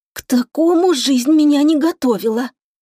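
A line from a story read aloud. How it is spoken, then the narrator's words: Hoarse croak. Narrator (Russian): прохрипела я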